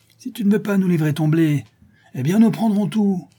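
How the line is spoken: Shouting. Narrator (French): cria le charron

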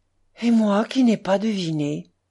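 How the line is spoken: Sad. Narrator (French): dit tristement Smourov

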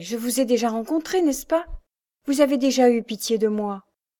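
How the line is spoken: Exclamation. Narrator (French): s'écria-t-elle

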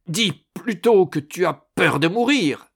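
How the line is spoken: Roaring. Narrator (French): rugit Malatesta

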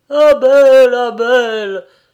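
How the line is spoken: Stunned exclamation. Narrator (French): s'écria Jacques en reconnaissant avec stupeur l'infortuné jeune homme

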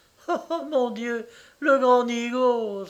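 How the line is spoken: Exclamation. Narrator (French): s'écria Dora

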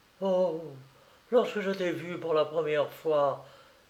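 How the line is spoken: Sigh. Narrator (French): soupira la Kenassa

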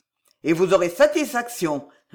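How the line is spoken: Muffled sneer behind door. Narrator (French): ricana derrière la porte la voix de Maurevert

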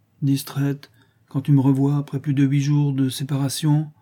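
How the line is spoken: Said sadly. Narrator (French): dit tristement Clara

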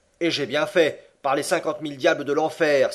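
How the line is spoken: Exclaimed. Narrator (French): s'écria Andrew Speedy

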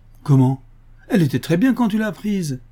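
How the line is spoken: Indignant exclamation. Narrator (French): s'écrie-t-il indigné

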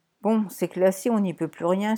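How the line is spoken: Sighing. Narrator (French): soupira Poppy

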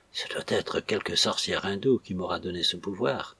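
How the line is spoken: Very faint murmur. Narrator (French): murmura Pérol, si bas que Catherine ne put l'entendre

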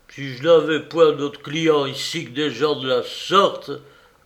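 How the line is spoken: Innkeeper grumbling. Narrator (French): gronda l'hôte

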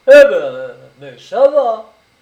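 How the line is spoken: Cried out. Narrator (French): s'écria le brigadier

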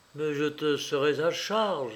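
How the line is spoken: Murmuring. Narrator (French): murmurait Louis

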